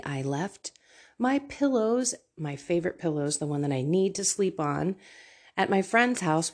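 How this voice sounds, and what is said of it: Nasal, congested-sounding voice. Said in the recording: “I sound awfully nasally”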